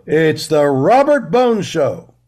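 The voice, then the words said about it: Big announcer voice. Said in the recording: “Do like a big announcer voice.”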